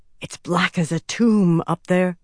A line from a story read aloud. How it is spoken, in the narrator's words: whispered